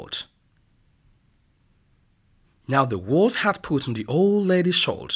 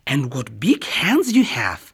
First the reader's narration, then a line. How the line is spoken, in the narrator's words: exclaimed Little Red Riding Hood